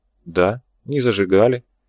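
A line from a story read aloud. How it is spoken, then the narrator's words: Calm confirmation. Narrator (Russian): все так же спокойно подтвердил священник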